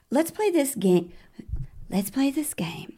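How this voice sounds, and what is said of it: Imitating a woman's sweet accent. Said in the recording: “she's got her nice little accent. So sweet.”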